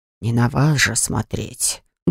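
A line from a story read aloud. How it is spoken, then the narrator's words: Gruff mutter. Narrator (Russian): буркнул Грег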